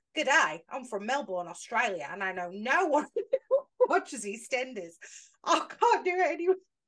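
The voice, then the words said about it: Put-on Australian accent. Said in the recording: “read that in an Australian accent ... I want you to read it in an Australian accent”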